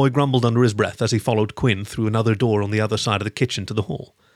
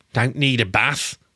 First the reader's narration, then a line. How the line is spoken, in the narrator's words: Harold grumbled